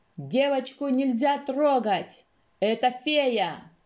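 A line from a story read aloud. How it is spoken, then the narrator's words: Shouting. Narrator (Russian): закричал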